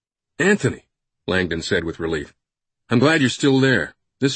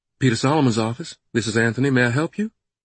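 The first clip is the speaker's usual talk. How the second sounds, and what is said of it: Southern accent character voice. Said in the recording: “The familiar southern accent”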